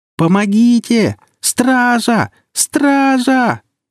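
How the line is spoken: Girl screaming again. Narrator (Russian): вновь завопила девушка

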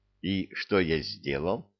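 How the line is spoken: Plain. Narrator (Russian): спросил он

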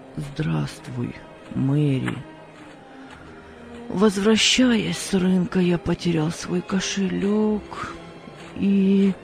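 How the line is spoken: Very sad voice. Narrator (Russian): очень печальным голосом сказал

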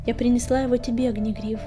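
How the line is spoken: Quiet. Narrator (Russian): тихо сказала она

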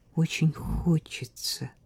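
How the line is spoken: Quiet. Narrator (Russian): тихо сказал Слава

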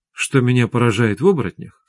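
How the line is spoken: Plain. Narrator (Russian): сказала Светлана

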